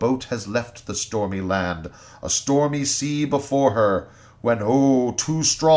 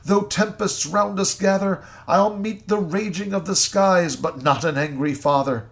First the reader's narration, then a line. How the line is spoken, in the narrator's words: the lady cries